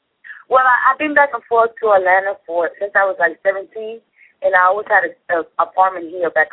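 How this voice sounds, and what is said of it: Strong Puerto Rican Spanish accent. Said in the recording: “I'm Puerto Rican... it's nothing but Spanish in Miami, so I still have a strong accent”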